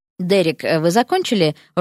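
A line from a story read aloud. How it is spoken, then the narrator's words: Even tone. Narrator (Russian): ровным тоном спросил Кристофер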